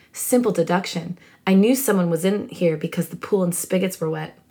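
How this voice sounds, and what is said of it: Lowered Snape impression voice. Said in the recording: “doing a Snape voice, I guess... I'm just going to lower it a little bit.”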